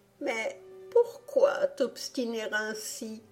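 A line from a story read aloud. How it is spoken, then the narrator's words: Wardrobe exclaiming. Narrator (French): s'exclama alors l'armoire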